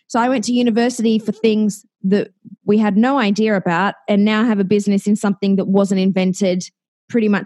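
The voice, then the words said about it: Speaks with a noticeable accent. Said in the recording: “love your accent.”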